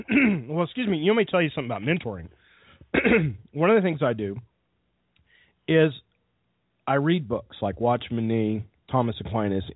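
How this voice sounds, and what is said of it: Sick voice with a cold. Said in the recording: “you can probably tell I have a cold. I'm sitting here, I'm sick”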